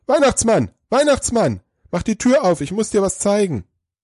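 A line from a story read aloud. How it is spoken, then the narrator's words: Breathless shouting. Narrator (German): ganz außer Atem ... ruft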